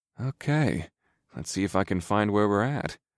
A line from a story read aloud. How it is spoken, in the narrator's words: I muttered